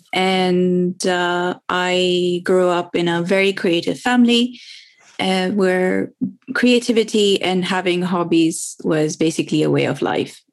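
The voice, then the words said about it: Pakistani-influenced British English accent. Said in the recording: “my funny accent. I'm not 100% British, but I was born and raised in Pakistan”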